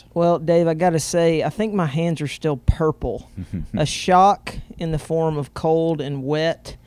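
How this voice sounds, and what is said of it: Strong Southern US accent. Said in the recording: “I think you'll like the way he talks because a lot of people do. A bit of a southern accent, huh? ... I think bit is an understatement.”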